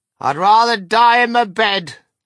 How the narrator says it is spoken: shouted Grandma Josephine

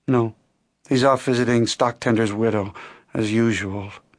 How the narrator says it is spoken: Jean said with a sigh

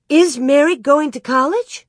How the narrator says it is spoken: Laura cried out

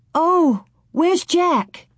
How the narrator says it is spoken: Laura cried

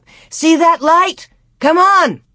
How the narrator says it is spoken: he yelled to Cap

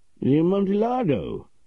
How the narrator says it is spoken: cried my friend in his confusion

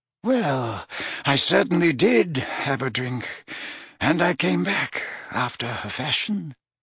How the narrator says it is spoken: mumbled Dumbledore

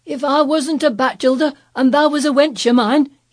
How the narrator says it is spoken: he cried

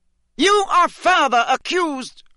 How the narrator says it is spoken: bellowed Mr

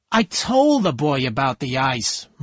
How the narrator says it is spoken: Myrtle said angrily

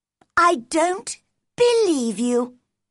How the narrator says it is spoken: cried Mary

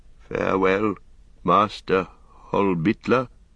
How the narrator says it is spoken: he said

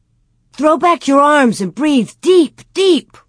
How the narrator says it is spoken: Laura cried

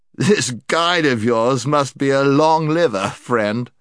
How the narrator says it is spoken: said the knight with another of his laughs

